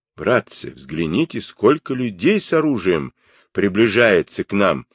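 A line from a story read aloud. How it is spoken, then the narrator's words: Frightened exclamation. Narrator (Russian): воскликнул танский монах в сильном испуге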